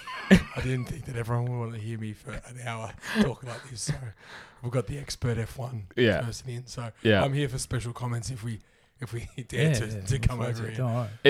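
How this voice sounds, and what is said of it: Hoarse, nearly lost voice. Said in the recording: “extremely sick and has basically lost his voice”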